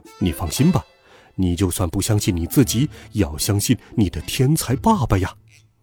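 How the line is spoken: Soft, reassuring. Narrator (Chinese): 爸爸 在我的口袋里面轻声说

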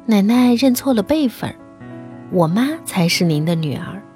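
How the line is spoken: Sweet, clever tone. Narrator (Chinese): 乖巧伶俐地说

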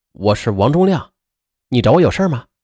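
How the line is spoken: Plain. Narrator (Chinese): 侦查员张亮就说了

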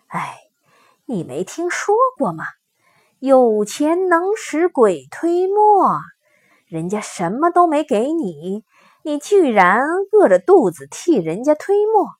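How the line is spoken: Sighing old ghost. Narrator (Chinese): 老鬼叹了口气说

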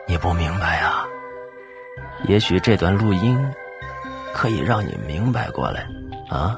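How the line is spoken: Quiet voice. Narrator (Chinese): 周宝强……小声道

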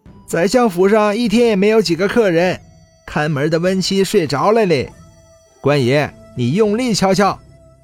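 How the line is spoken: Laughing. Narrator (Chinese): 旁边的闲汉笑道

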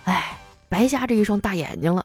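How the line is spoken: Sighing, regretful. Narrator (Chinese): 叹了一口气，痛惜道

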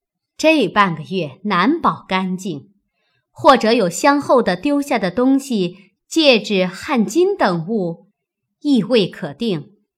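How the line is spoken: Laughing. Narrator (Chinese): 凤姐又笑道

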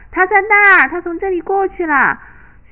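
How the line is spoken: Children calling out. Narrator (Chinese): 孩子们叫着

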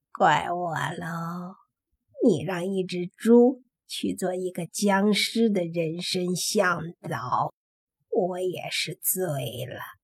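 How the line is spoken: Soft muttering. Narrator (Chinese): 黑猪小声的嘀咕

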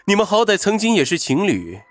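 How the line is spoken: Wry smile. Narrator (Chinese): 云峰微微苦笑

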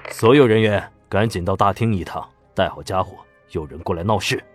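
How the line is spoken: Deep, stern voice. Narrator (Chinese): 马东风沉声道

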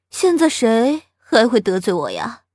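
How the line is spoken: Sighing. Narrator (Chinese): 翟丹青叹了一口气，说道

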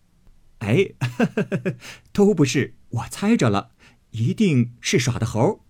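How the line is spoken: Laughing. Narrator (Chinese): 宝玉笑了半日，道

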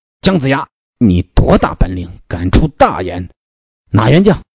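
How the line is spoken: Furious. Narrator (Chinese): 韩荣大怒曰

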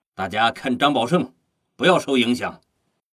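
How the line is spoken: Loud. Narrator (Chinese): 何作修大声说

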